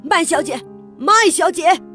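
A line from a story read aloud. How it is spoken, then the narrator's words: Loud urgent calling. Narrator (Chinese): 马彬先生从大厅跑进馆长办公室，他大叫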